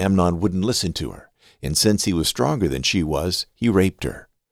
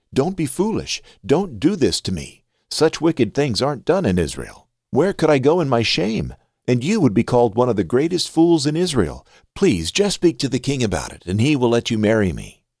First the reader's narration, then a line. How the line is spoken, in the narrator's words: she cried